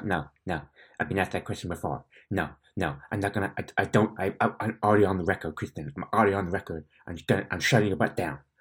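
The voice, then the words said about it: Imitates another person's voice. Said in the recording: “That's a very good Tarantino impression”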